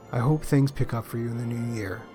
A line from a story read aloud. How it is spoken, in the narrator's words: Andrew adding quietly